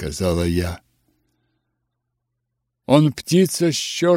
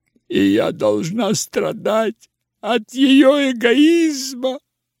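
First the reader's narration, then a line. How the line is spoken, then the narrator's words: Sobbing. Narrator (Russian): рыдала Изабелла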